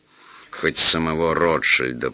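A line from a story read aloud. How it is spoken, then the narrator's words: Through gritted teeth. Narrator (Russian): процедил Бурляев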